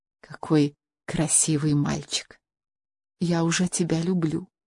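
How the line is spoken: Tender whisper. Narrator (Russian): прошептала она с нежностью

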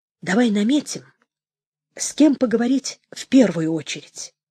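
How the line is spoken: Hoarse, regaining composure. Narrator (Russian): хрипло сказал Анатолий, овладев собой

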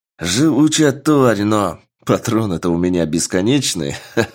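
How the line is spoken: Adrenaline-fueled man laughing. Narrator (Russian): Рассмеялся мужчина, переполненный адреналином

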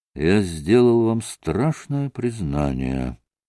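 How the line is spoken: Gloomy conclusion. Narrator (Russian): мрачно заключил

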